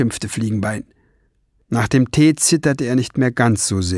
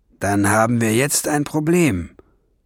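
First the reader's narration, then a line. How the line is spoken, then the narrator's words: Growled. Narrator (German): knurrte Burbur-Chan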